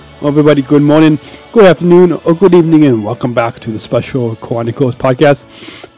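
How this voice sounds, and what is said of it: Sniffly, congested voice. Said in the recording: “I'm kind of sniffling right now, because I, for the past week, have had a cold.”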